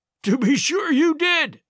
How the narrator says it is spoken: he cried

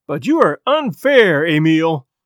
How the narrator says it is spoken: cried Chris Farrington, his sensitive face flushed and hurt

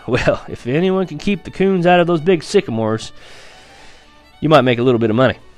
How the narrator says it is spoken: Papa laughed and said

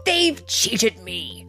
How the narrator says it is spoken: howled Tim in a terrible temper

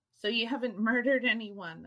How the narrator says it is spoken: chuckled

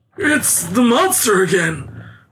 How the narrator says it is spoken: cried old An in terror

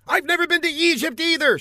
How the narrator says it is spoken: snapped

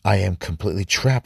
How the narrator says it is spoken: groaned

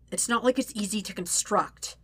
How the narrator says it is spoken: Zuko snaps

